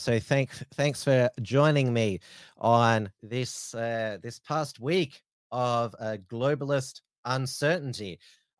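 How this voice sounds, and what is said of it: Voice fading, strained. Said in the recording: “I'm losing my voice.”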